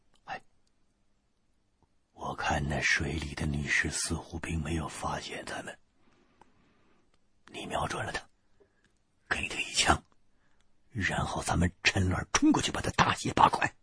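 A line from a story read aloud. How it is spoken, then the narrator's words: Whispering. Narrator (Chinese): 我低声对身边的胖子说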